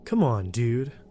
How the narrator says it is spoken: he said in his Chadliest tone

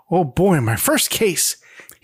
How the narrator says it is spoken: exclaims

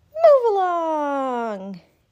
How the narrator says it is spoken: Its motor screamed

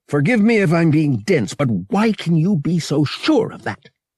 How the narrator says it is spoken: Han snapped

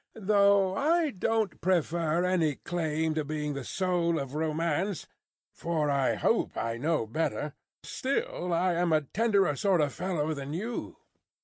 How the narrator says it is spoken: rejoined Stryver, laughing boastfully

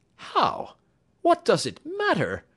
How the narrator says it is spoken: cried James Playfair

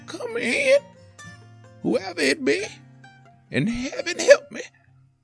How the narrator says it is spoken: She managed to call out in a high voice

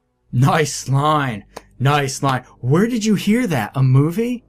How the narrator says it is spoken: In my ear, Jack shouted

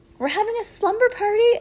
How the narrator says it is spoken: exclaimed Heidi

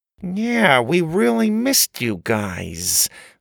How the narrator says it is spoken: Grandma said through gritted teeth

